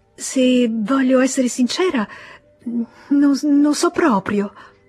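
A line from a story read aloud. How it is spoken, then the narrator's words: Stammering with mysterious smile. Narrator (Italian): balbettò lei con un misterioso sorriso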